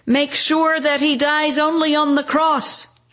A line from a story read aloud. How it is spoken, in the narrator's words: shout the crowd